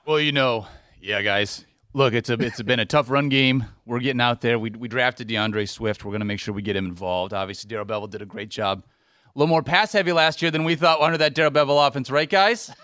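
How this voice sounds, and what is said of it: Matt Patricia impression. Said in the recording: “doing his best Matt Patricia impression ... You're Matt Patricia right now.”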